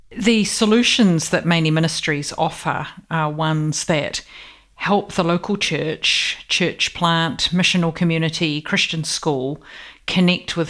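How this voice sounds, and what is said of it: New Zealand accent. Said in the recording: “born in New Zealand ... you've still got that lovely accent”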